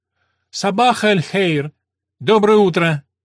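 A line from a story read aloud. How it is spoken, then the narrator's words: Shout. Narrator (Russian): крикнул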